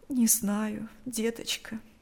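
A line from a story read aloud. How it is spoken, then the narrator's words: Woman's heavy sigh. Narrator (Russian): тяжело вздохнула женщина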